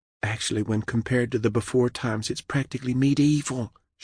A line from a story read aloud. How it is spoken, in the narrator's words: she whispered